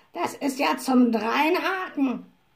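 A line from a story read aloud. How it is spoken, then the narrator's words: Indignant croak. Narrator (German): krächzte Abraxas empört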